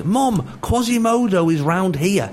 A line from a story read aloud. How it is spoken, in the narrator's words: suddenly she shouted at the top of her voice